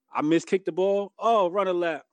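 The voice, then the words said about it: Jamaican accent imitation of father. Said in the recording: “my father's Jamaican, so he had that accent.”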